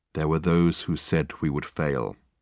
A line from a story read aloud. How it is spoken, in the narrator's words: continued Michael, in his low tone that carried clearly under the boisterous noise that filled the carriage